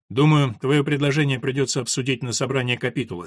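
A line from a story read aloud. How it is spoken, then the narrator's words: Plain. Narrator (Russian): сказал Филипп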